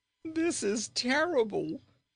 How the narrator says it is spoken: wailed the young prince, ready to weep at his loss

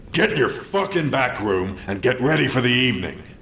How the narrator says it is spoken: Swearingen roared again

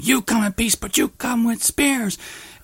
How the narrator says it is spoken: this big fat chick that is just screaming at them

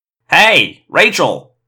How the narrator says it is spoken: Marco called out

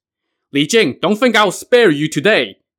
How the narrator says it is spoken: Nezha shouted

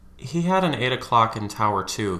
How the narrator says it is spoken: he mumbled

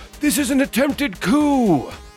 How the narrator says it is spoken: Pine will just bellow out

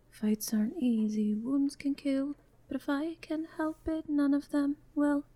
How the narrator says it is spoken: very, very quietly sing

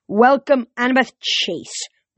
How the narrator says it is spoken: the monster cried

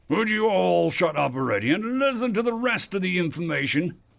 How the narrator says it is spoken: the human council member called out

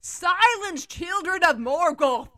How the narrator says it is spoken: He shouted

